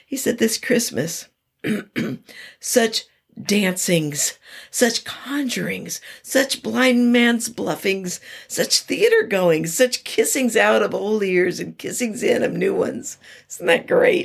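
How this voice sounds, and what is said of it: Strained, fading voice. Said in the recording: “my voice is giving up a little bit”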